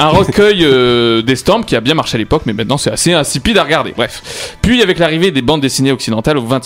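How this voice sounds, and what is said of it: Usual voice. Nothing is said of it.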